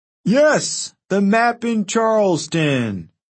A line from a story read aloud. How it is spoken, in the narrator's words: Frank said loudly